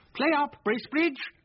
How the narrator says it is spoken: at the top of his voice

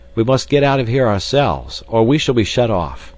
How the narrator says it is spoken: he cried

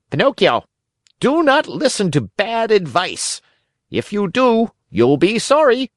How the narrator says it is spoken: a blackbird called out sharp and clear

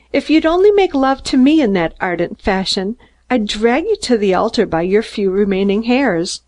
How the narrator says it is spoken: laughed Mary

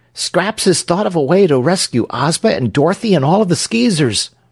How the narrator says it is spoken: cried Trot

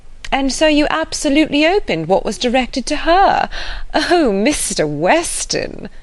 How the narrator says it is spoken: laughing affectedly

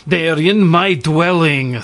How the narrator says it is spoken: snapped Kwytoffl

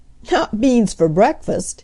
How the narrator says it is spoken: laughed Dinah

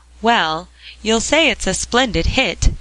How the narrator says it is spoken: cried Jasper

